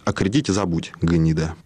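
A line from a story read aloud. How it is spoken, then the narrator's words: Quiet. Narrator (Russian): Кудрявцев тихо сказал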